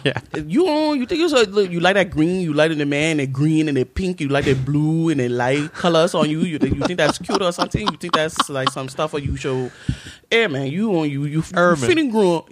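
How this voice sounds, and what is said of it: Imitated immigrant parents' fast accent. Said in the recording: “your parents speak with an accent. My mother still speaks with an accent ... they speak with their accent ... They talk like this. They talk real fast”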